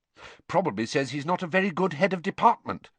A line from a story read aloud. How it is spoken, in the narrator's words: said Hermione